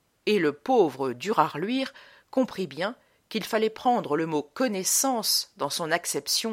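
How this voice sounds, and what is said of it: Usual voice. Nothing is said of it.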